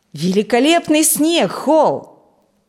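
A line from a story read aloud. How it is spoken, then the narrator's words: Loud exclamation. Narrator (Russian): громко воскликнул Фрэнк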